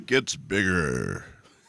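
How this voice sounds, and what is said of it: Booming radio announcer voice. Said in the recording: “You are good with your announcer voice today, dude.”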